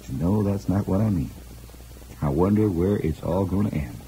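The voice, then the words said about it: Indiana accent. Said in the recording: “I'm using my Indiana accent today”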